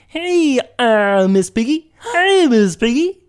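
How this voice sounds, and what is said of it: Kermit the Frog voice impression. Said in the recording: “I can do Kermit the Frog ... That sounded amazing”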